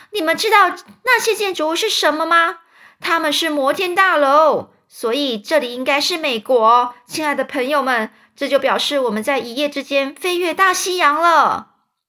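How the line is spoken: Excited shouting. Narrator (Chinese): 詹姆斯一边大叫，一边兴奋地说

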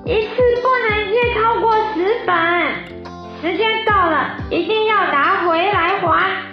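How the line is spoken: Loud shouting mouse. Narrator (Chinese): 老鼠大叫

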